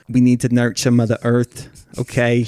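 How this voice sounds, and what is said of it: Vegan hippie character voice. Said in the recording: “like a vegan hippie who talks just like this”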